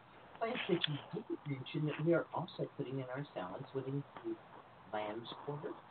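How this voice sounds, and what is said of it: Usual voice. Nothing is said of it.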